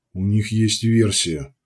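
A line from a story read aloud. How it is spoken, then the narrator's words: Sighing. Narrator (Russian): вздохнул Мечислав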